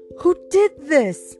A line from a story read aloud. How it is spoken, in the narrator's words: screamed one as she saw Medusa's headless body sprawled on the floor